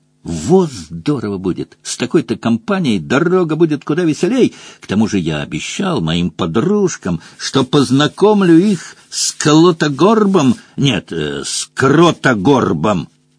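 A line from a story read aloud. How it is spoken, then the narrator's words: Whisper in ear. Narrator (Russian): зашептал на ухо Куорли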